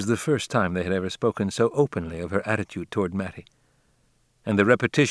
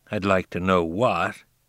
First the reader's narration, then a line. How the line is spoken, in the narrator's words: he growled